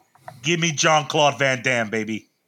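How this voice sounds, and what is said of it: Bad put-on Boston accent. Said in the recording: “with a horrible Boston accent attempt”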